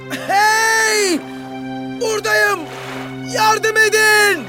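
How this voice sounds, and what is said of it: Shouting for help. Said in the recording (Turkish): “bağırmaya başlamış”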